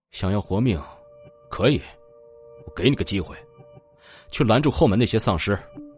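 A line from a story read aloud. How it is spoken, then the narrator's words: Cold tone. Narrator (Chinese): 楚风 冷冷的说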